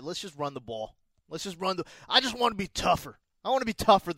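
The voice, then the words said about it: East Coast, southern Brooklyn-style accent. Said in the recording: “what accent was that? You just said run the ball... East Coast bro?... It's like you're from like southern Brooklyn.”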